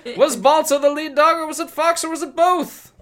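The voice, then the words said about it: Put-on transatlantic accent. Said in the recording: “the transatlantic accent.”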